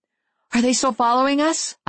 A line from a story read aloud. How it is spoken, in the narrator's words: I asked urgently